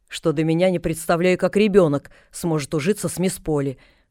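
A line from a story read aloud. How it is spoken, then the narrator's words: Sharp reply. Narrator (Russian): резко ответила она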